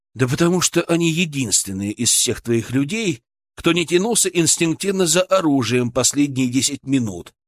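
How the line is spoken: Calm, confident. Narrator (Russian): сказал я спокойно и уверенно

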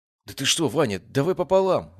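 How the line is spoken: Exclaiming. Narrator (Russian): воскликнул он

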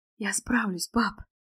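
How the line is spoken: Whisper. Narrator (Russian): шепнула она Леониду Сергеевичу

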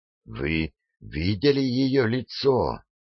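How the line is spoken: Terrified whisper. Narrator (Russian): прошептал Адамс, почувствовав, как волосы шевелятся на его голове

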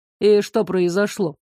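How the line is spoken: Calm question. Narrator (Russian): Поинтересовался спокойно

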